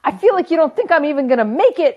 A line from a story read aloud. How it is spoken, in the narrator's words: she yells at me